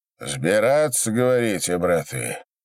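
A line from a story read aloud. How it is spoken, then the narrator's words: Gloomy question. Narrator (Russian): спросил Осип, мрачно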